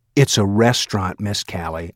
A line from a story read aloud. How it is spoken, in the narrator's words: I said in a low voice